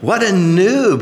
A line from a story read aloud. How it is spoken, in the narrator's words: cackled Gabriel as he doubled over with laughter